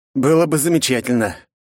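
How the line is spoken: Strained breathy exhale. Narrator (Russian): выдохнул я, чувствуя невероятную перегрузку

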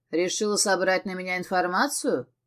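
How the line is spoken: Snorting smirk. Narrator (Russian): хмыкнул

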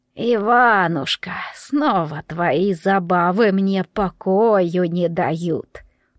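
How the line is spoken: Creaky, unpleasant voice. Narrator (Russian): проскрипела неприятным голосом Видана

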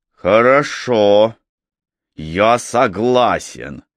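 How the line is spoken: Furious, through gritted teeth. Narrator (Russian): яростно процедил Макфей сквозь зубы

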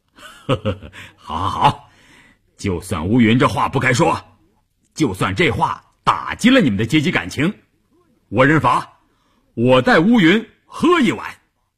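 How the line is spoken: Cheerful laughing. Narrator (Chinese): 关山林笑呵呵地说

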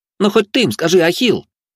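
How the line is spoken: Indignant yell. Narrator (Russian): возмущенно заорал пацан

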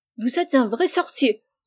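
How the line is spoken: Exclaimed. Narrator (French): s'écria Rose

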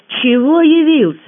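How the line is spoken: Irritated snap. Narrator (Russian): рявкнула я, плохо сдерживая раздражение

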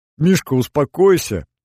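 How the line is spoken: Laughing loudly. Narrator (Russian): захохотал

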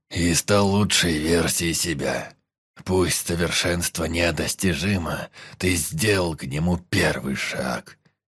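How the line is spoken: Joyful growl. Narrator (Russian): радостно прорычал Сюэнь

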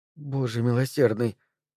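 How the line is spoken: Muttered. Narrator (Russian): пробормотала мамаша

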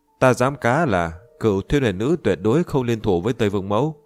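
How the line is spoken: Bursting laughter. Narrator (Vietnamese): Diệp Chi Thu bật cười

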